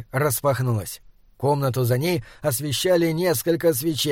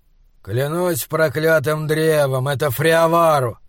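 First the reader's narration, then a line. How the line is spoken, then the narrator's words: Grumbling voice. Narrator (Russian): проворчал голос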